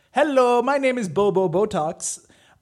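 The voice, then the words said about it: Put-on accent for a character. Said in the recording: “I put this accent into my head ... let me get back into character”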